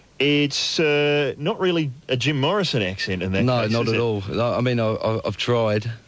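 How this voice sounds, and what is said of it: English accent. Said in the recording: “is that an English accent? ... It is, yep.”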